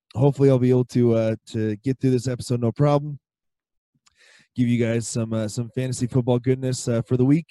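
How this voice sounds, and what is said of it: Hoarse, strained losing voice. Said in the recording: “as you can tell, I am losing my voice again”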